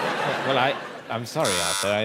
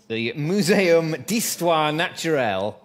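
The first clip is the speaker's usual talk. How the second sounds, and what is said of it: Bad put-on French accent. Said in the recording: “That's a very bad French accent.”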